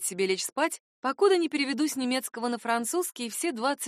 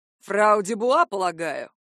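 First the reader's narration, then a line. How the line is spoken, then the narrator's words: Pleading question. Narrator (Russian): выпросил один из них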